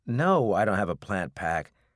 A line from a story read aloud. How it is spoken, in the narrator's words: Tyler said with a sigh